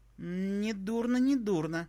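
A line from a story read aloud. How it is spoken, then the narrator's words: Drawl. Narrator (Russian): протянула пришедшая в себя первой Алевтина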